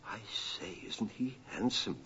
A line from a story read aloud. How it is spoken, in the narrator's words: Thumbelina whispered to the swallow